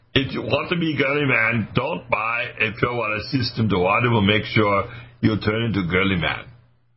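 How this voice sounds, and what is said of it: Put-on comic accent. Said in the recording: “I'm going to change my accent again, as I usually do this.”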